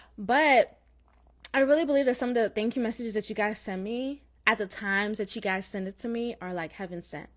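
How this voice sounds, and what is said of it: Slight Jamaican accent. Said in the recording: “I have Jamaican in my blood, although I was born in Florida, but I have Jamaican parents, so you may hear like a slight Jamaican accent.”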